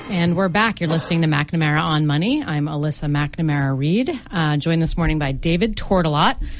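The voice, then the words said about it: Slightly out of breath. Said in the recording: “out of breath because I ran the stairs during the break ... a little out of breath”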